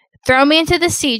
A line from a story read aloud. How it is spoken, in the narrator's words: Jonah says